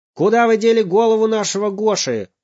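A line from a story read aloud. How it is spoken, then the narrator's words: Father shouting. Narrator (Russian): закричал папа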